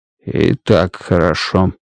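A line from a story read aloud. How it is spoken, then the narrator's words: Muttered. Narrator (Russian): пробормотал Страйк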